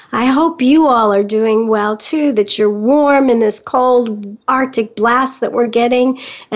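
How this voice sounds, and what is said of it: Raspy, hoarse voice. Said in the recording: “I had a coughing bout ... bear with me with my raspy voice”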